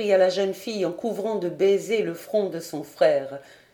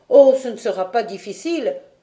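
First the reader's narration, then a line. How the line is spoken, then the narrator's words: Confident youthful exclamation. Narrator (French): s'écria Robert avec sa confiance juvénile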